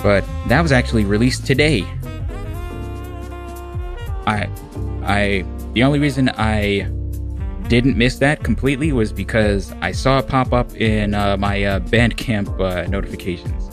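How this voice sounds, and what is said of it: American accent. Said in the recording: “Curse this American accent.”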